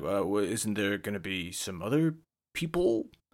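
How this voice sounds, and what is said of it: Bad put-on American accent. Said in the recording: “In that sort of stupid, bad American accent he does”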